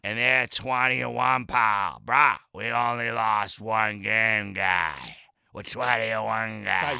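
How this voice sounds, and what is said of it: Exaggerated put-on Boston accent. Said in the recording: “What you're doing with your voice is awful. Don't do that. ... Honestly the best sounding Boston accent you'll hear in weeks.”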